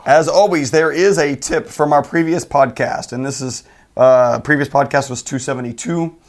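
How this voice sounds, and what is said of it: Froggy, hoarse voice. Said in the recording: “my voice is a little different ... Froggy ... it does sound painful”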